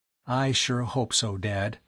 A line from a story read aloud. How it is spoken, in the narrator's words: Tom murmured